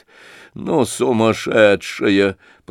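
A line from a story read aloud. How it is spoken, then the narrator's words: Muttered. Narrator (Russian): пробормотала Лизавета Прокофьевна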